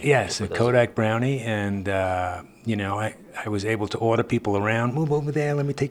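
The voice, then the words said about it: New York accent. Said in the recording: “I come from New York. ... Hence the accent. ... Yes, the accent. I've not been able to ditch it”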